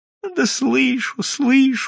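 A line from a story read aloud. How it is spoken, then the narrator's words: Glum reply. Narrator (Russian): уныло отвечал Прозрачный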